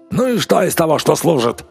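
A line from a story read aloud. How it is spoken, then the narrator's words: Shouted. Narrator (Russian): крикнул Рич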